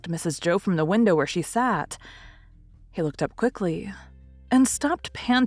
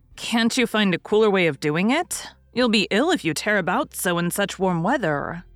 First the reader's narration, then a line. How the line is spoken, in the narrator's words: said Mrs